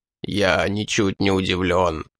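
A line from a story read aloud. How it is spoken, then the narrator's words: Hoarse rasp. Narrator (Russian): прохрипел вождь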